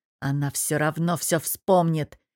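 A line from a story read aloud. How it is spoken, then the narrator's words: Growled through clenched teeth. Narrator (Russian): стиснув челюсть, рычит сквозь зубы и, криво усмехнувшись, цедит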